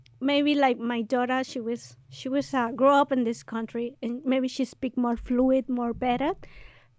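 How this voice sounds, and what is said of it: Non-native English accent. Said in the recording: “I love my accent ... Everyone laughing at me because of my accent.”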